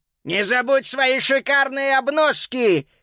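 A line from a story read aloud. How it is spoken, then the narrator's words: Checker shouting after someone. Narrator (Russian): крикнул ему вслед чекер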